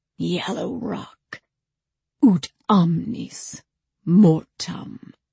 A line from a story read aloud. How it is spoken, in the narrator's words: Hoarsely he said